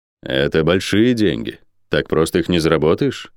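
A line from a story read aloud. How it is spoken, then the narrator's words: Calm. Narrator (Russian): спокойно сказал Орден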